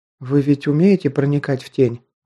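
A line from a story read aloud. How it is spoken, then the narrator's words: Timid girl's voice. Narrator (Russian): робко произнесла девушка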